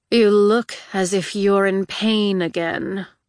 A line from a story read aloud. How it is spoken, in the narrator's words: Jax drawled